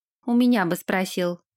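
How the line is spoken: Grumbled. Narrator (Russian): пробурчала Генри

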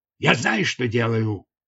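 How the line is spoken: Barked. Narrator (Russian): рявкнул Раставас

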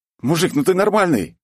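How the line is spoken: Startled shout. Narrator (Russian): крикнул я ему, когда ощутил, насколько близко от меня прошелся его молот

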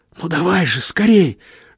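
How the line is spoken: Whispered pleading. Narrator (Russian): шепотом умоляет Зиночка

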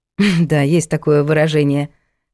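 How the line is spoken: Snorting hmph. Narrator (Russian): хмыкнул тот

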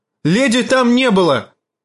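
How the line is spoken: Angry shout. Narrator (Russian): гневно крикнула Ария

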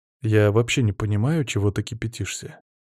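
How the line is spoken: Calm, good-natured. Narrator (Russian): спокойно ответил я, подкрепив добродушной улыбкой

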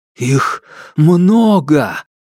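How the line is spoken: Shocked breathless. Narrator (Russian): потрясенно выдохнул Алексей

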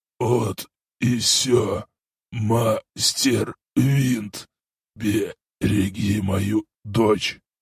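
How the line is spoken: Hoarse rasp. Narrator (Russian): Исмаил прохрипел мне

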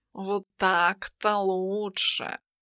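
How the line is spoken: Purred. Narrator (Russian): промурлыкал

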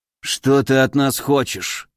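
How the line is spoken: Sighed. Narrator (Russian): вздохнул один из японцев

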